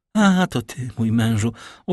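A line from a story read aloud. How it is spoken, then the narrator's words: Calm, natural tone. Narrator (Polish): ozwała się spokojnie, tonem jak najnaturalniejszym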